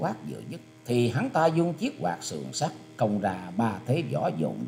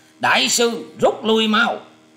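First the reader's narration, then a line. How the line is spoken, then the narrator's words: Loud shout. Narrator (Vietnamese): hắn quát to lên rằng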